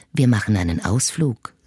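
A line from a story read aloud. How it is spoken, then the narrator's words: Soft murmur in ear. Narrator (German): säuselt er sanft in mein Ohr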